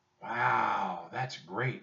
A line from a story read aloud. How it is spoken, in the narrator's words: whispered Annie